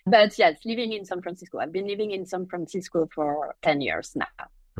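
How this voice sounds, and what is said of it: French accent. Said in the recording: “there's a kind of a French accent here”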